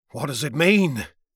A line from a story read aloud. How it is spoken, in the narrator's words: says Rames to me in a quavering, trembling sort of voice